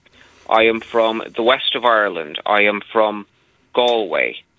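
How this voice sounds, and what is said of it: Irish accent. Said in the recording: “hearing your accent, we can conclude that you yourself are from Ireland”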